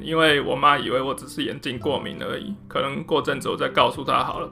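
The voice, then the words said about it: Lowered, quieter voice. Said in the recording (Chinese): “这个要讲小声一点”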